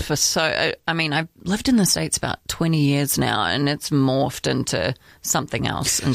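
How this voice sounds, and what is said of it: New Zealand accent, partly Americanized. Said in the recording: “Take in her accent. I think it's wonderful ... A little Kiwi”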